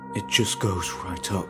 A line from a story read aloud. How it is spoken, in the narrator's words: he whispered